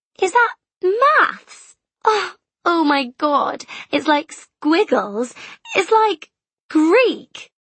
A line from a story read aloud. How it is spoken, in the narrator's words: she giggled